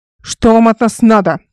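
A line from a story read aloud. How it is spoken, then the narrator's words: Elder woman growling. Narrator (Russian): рычала старшая Эл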